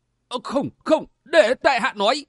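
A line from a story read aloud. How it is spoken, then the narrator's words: Hurried pained cry. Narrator (Vietnamese): Hắn tử nọ không chịu nổi đau đớn, kinh khủng, vội kêu lên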